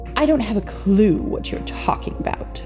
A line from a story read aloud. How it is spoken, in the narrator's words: Victor said haughtily